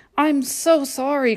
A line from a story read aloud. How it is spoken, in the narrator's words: cried Mike